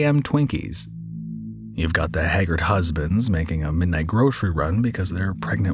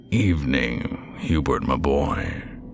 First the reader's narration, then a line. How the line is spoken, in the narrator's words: came the raspy reply